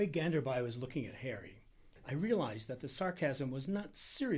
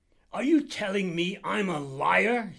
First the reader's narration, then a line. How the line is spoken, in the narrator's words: shouted